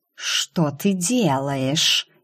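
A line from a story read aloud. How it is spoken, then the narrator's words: Astonished serpent's hiss. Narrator (Russian): изумленно прошипел змей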